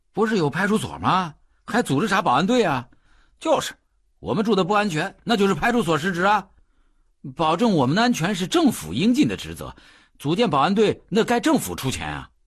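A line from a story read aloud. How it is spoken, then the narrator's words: Clamoring. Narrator (Chinese): 他们甚至嚷嚷起来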